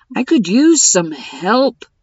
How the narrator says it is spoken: told them irritably

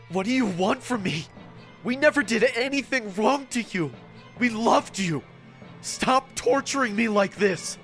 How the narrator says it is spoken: I asked in a gasping voice

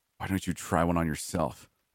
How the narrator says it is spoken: I growled

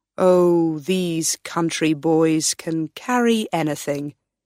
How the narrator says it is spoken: said her husband

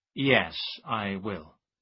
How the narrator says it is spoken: Ambrose answered slowly

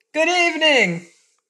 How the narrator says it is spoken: putting her mouth close to his ear, she yelled as loudly as she could

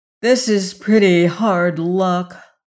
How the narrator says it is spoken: said Ojo in a discouraged voice

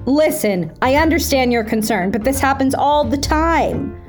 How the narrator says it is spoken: Humpty replied

